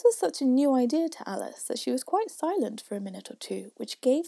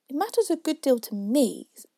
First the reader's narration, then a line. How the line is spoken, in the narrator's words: said Alice hastily